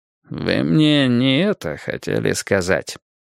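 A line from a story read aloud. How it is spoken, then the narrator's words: Sleepy. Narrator (Russian): как-то сонно проговорил Мейсон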